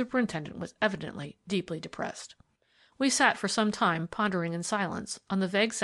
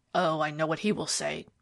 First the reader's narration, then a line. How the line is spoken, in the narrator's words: growled Miller